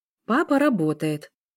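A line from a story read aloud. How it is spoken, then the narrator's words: Calm female voice. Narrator (Russian): спокойно ответила женщина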